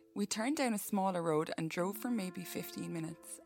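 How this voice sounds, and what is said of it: Storytelling narrator voice. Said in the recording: “Narrator voice.”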